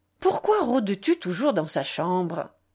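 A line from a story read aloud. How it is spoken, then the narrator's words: Old woman grumbling. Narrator (French): grommelait grand-mère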